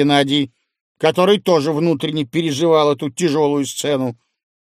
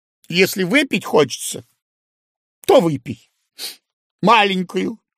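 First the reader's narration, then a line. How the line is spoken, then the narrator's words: Tearful. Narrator (Russian): Антонина сказала сквозь слезы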